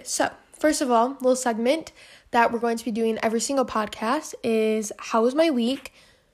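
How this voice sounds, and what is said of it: Out of breath while talking. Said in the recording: “whenever I talk a lot, I get really out of breath ... I get really out of breath ... I'm already out of breath.”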